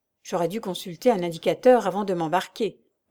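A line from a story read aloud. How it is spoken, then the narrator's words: Murmuring. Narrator (French): murmura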